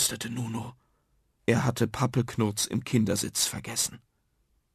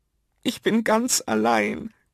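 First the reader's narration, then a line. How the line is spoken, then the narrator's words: Croaking. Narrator (German): krächzte Nuno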